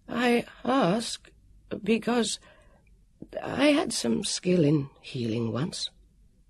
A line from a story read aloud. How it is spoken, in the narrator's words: the warrior said in his nervous, fluting voice